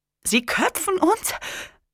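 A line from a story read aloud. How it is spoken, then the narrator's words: Excited, noticeably higher voice. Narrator (German): Magnus Stimme klang aufgeregt und deutlich höher als vorher noch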